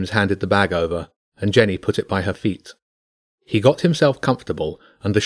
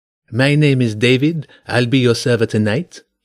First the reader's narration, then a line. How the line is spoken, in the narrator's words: said with a French accent